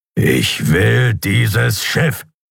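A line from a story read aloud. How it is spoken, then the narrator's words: Growling. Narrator (German): knurrte er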